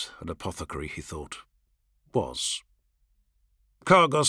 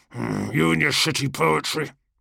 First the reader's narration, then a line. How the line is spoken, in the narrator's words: Cargos grunted